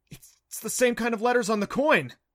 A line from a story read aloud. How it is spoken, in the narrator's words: he cried